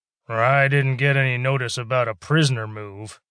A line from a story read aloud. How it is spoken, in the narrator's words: grumbled